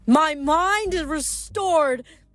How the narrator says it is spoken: she roared

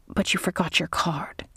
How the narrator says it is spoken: the casino GM whispered

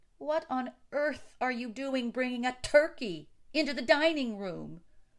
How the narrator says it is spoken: bellowed Mrs

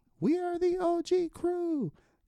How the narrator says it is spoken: you can faintly hear my guy Jesse go

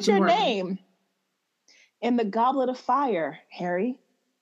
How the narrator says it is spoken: He asked calmly

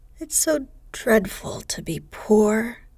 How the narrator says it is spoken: sighed Meg

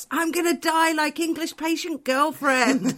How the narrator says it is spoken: he just stands up and shouts

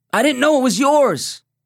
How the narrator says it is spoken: yelled

